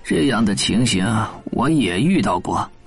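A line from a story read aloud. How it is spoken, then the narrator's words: Sighing. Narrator (Chinese): 他叹了口气说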